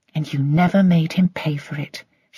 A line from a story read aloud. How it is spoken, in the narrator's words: she said bitterly